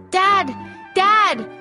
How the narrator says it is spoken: shouted

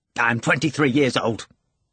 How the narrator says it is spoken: Ivan said impatiently

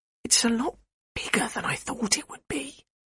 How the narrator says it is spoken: whispered Nat's mum, clearly stunned by the creature standing before them

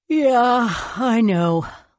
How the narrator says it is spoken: Leon yawned again

